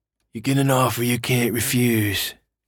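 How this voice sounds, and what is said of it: Bad Godfather impression. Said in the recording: “terrible Godfather impression”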